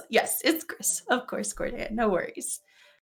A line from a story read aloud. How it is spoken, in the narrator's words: Gris kind of chuckles and says